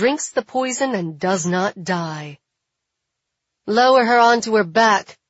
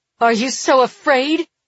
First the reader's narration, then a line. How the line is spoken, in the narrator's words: Mirabella shouts, with tears in her voice